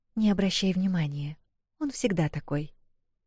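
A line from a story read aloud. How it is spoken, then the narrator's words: Whispered. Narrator (Russian): прошептала Эл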